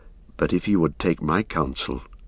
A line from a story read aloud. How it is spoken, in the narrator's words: said Éomer in a low voice